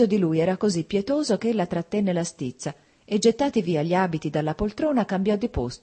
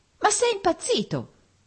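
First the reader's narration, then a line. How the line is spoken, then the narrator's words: Angry shout. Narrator (Italian): gridò lei avvampando di stizza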